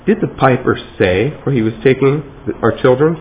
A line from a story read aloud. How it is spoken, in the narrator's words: someone asked